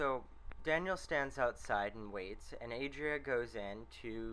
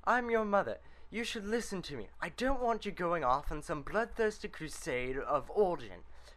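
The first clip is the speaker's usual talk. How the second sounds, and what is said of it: Bad put-on British accent. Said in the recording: “Horrible British accent here”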